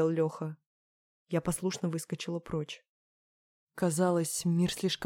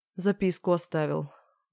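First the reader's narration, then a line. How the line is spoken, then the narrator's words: Sighing. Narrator (Russian): вздохнул Леха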